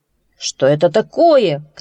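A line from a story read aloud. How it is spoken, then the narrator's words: Shouting. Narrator (Russian): кричал он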